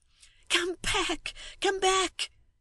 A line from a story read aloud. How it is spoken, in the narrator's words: exclaimed the woman